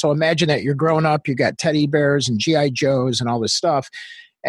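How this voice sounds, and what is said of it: Australian-influenced accent. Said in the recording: “let's move to Australia, which is where I got my accent”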